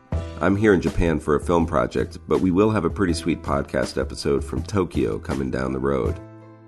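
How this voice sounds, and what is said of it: Congested, sick-sounding voice. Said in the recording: “That's because I'm sick. I've got a cold”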